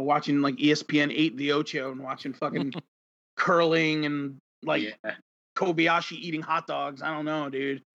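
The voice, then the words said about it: Strong Long Island accent. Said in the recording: “That is the most beautiful Long Island accent ... a nice, strong Long Island accent”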